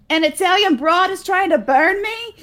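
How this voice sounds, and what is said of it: Put-on accent. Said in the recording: “Can you do the rest of this show in that accent?”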